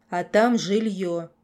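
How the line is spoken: Gloomy remark. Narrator (Russian): мрачно заметил Стив

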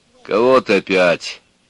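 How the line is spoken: Deep mannish old woman's question. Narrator (Russian): спросила высокая старуха с мужскими руками и с мужским басовитым голосом

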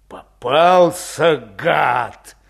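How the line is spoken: Low gurgling voice. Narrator (Russian): Клокочущим низким голосом сказал Подтелков

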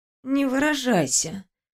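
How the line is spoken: Sleepy grumble. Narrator (Russian): проворчала я сонно

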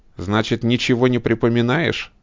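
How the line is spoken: Sharp question. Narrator (Russian): резко спрашивает он

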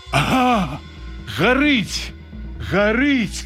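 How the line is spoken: Excited shouting. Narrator (Belarusian): крычу я, убачыўшы ў прыцэлі, як дыміць на дарозе нахіленая на бок машына

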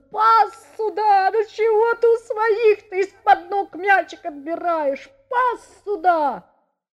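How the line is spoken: Sobbing shout. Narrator (Russian): кричал рыдающим голосом

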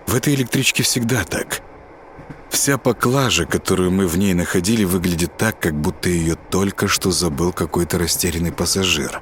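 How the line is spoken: Plain. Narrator (Russian): ответил он

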